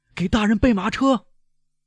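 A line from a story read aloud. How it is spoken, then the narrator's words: Hoarse shout. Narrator (Chinese): 贝尔图乔用暗哑的嗓音喊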